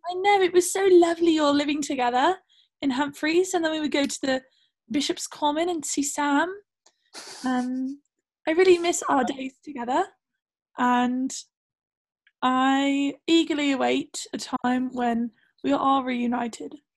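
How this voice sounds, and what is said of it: Put-on British accent, Australian tinge. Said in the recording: “My British accent has actually taken kind of a toll because I've gotten really into Australian accents ... I can hear some Australian tinge in there”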